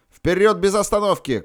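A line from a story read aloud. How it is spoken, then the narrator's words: Shout. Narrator (Russian): крикнул я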